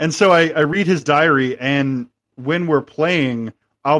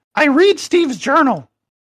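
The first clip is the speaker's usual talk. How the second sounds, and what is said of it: Very high-pitched character voice. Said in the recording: “in my Bradley Cooper voice, which is very high pitched”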